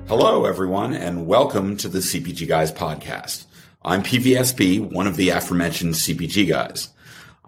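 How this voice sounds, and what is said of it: Hoarse, worn-out voice. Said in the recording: “if you can't tell from my hoarse voice after talking for several days”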